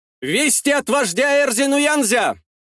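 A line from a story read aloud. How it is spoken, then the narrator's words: Shout from behind. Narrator (Russian): выкрикнули за спиной Куввада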